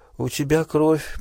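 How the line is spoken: Drunken mumble. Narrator (Russian): пробормотала она, как пьяная

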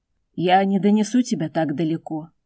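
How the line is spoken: Dragon, sad. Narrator (Russian): грустно сказал дракон

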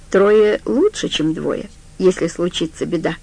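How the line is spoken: Plain. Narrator (Russian): сказал Стью

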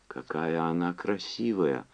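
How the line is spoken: Whispered. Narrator (Russian): прошептала Чарли

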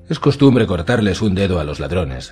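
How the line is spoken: Curt dry reply. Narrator (Spanish): replicó Lord Tarly en tono seco

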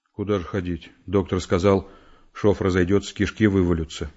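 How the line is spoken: Gloomy. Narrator (Russian): мрачно сказал Володя

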